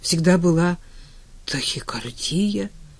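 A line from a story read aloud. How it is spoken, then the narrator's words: Confused mumble. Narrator (Russian): растерянно пробормотал Женя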